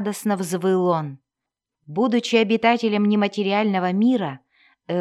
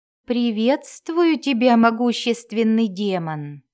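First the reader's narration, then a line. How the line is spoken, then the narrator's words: Smooth, ingratiating. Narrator (Russian): вкрадчиво произнес Кессел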